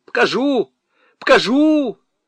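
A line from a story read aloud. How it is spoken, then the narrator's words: Bolder but shrill shout. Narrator (Russian): крикнул смелее, хотя и визгливо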